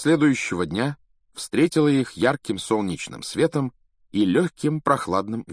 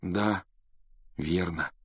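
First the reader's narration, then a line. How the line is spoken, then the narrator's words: Sighing. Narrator (Russian): вздохнул Гарри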